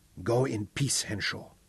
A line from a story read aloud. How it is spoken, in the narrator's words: whispered Batso